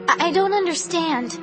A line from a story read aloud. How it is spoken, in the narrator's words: I stammered